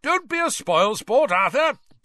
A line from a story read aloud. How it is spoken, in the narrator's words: boomed Ludo Bagman